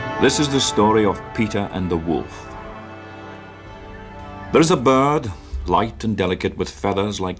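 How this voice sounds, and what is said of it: Sean Connery's Scottish-accented English. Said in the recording (French): “dans un anglais incroyable ... avec un accent écossais ... l'accent écossais de c'est James Bond, le premier”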